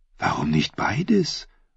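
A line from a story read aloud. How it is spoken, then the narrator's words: Whisper. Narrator (German): flüsterte sie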